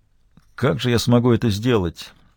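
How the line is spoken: Dejected voice. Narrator (Russian): сказал он упавшим голосом

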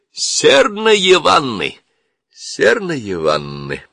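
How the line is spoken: Cruel laughing chant. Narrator (Russian): Они безжалостно расхохотались и сказали

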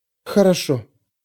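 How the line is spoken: Quiet reply. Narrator (Russian): тихо ответила Пандора

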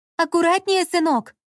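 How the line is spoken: Shouting after someone. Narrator (Russian): крикнула ему вслед Ольга

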